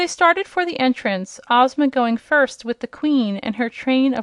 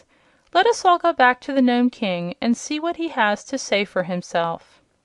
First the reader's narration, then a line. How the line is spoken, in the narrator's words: said Billina in her brisk little voice